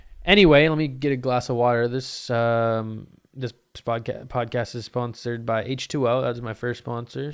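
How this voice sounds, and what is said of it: Raspy, strained voice. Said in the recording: “My voice feels very raspy. Can you guys hear it? ... I feel like I'm losing my voice.”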